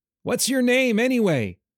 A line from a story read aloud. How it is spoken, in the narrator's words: the silver-eyed boy yelled